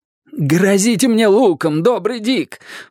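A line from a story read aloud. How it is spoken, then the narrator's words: Pleading. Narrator (Russian): взмолился он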